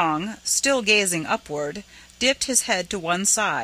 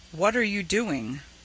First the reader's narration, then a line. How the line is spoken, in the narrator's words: asked softly